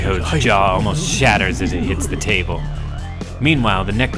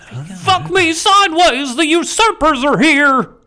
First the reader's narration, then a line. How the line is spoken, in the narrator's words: Someone shouts